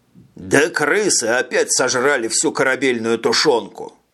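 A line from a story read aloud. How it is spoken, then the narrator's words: One-armed man grumbling. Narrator (Russian): Проворчал однорукий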